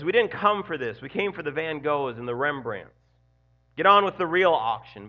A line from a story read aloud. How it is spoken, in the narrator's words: another voice angrily says